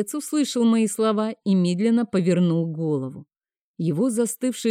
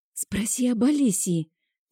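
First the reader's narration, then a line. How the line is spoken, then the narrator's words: Quiet but thunderous in silence. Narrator (Russian): тихо сказала я, но в тишине мои слова были подобны грому в раю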